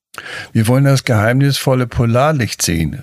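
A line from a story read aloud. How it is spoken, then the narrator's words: Excited call. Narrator (German): rief Max aufgeregt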